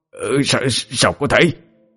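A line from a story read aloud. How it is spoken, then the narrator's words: Shocked stammering. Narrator (Vietnamese): Ngô Sinh kinh ngạc, lắp bắp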